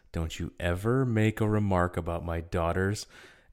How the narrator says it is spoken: calmly says

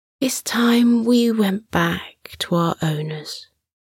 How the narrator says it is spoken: Sunny said sleepily

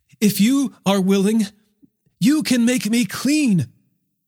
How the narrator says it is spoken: a man with leprosy, on his knees, begged him

